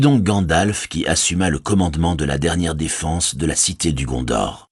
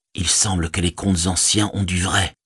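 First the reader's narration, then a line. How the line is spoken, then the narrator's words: Whispered. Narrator (French): chuchotait-on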